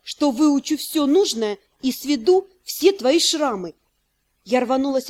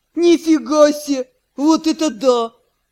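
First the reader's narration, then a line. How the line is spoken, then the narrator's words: Loud laughter. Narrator (Russian): Ю захохотал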